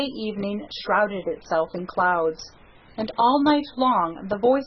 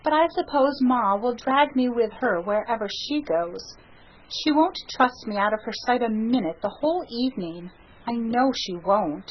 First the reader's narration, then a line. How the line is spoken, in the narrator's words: sighed Sarah Ray